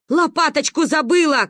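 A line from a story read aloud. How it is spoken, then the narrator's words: Grandmother calling after. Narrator (Russian): крикнула ей вслед Ба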